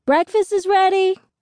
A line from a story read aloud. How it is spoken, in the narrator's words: yells